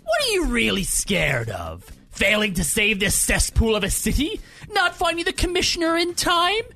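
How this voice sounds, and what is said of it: Joker character voice impression. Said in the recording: “That was a really good Joker impression. ... That was a good Joker.”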